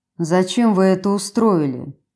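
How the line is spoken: Gloomy question. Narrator (Russian): мрачно спросил Кристиан

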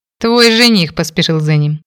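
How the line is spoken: Snorting, brother. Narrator (Russian): хмыкнул братец

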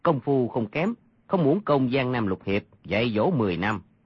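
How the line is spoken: Lowered voice. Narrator (Vietnamese): y hạ giọng mà nói

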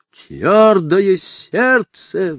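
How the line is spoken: Furious roar. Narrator (Russian): взревел сиу и в ярости

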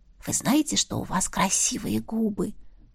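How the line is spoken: Whisper. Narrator (Russian): прошептала я

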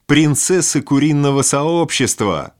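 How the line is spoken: Young men laughing mockingly. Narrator (Russian): хохотали трое парней

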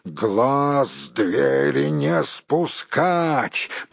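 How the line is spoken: Commander's growled order. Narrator (Russian): прорычал начальник караула

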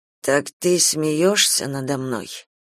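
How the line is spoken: Priest mumbling. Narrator (Russian): пробормотал священник

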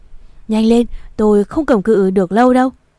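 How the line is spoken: Straining, shouting. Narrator (Vietnamese): gồng mình hết sức, hét lên

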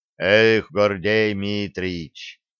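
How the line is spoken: Deep booming voice. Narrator (Russian): басом прогудел один из сопровождающих

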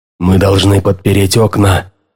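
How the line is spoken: Hoarse. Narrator (Russian): прохрипел он

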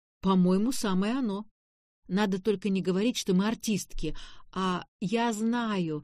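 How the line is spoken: Exclaiming. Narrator (Russian): воскликнула Таня

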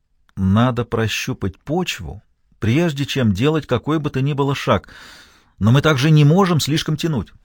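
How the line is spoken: Timid. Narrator (Russian): Он лишь робко произнес

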